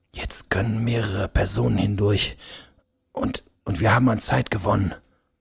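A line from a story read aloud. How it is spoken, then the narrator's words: Quiet. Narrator (German): begann er leise zu sprechen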